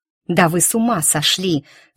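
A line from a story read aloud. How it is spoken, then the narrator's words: Mother still hissing. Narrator (Russian): все еще шипящим тоном ответила мать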